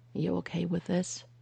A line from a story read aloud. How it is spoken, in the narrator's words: Phil asked, his voice hoarse